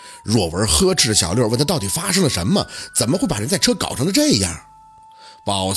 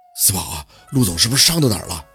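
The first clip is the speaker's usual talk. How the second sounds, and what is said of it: Quiet, hushed voice. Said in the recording (Chinese): “小声地凑到宝四身边询问”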